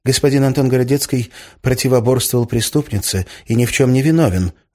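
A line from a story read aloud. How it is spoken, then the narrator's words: Quick speech. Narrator (Russian): быстро сказал Фан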